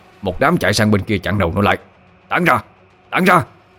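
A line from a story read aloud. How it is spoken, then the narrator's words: Shouted. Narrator (Vietnamese): Mô Lạng quát lên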